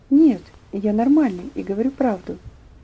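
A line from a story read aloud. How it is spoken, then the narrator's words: Quiet trembling voice. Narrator (Russian): Тихим, дрожащим голосом он ответил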